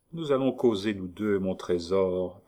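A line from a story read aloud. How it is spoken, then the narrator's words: Quiet, hushed. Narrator (French): prononça tout bas Monsieur Lecoq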